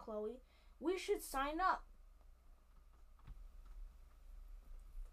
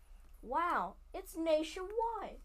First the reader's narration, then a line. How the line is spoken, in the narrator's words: I exclaim